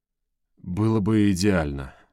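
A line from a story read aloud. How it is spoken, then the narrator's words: Breathy exhale. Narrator (Russian): выдохнул Бернард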